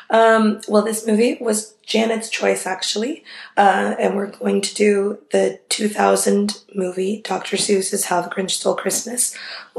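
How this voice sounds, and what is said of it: Sick, rough-sounding voice. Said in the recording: “I'm sick. My voice sounds terrible”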